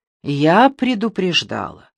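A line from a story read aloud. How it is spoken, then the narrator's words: Sighing. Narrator (Russian): вздохнула Ники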